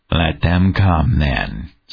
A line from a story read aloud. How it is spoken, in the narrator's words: said Eichmiel, grimly